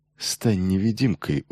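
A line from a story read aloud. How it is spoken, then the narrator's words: Smirking mutter from mouth corner. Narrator (Russian): ухмыльнувшись, пробормотал ему Чодак уголком рта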